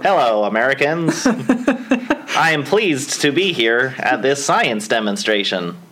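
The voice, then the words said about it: Put-on American accent. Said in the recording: “That's my American. ... That's your American accent? ... You're going to do a Bostonian accent?”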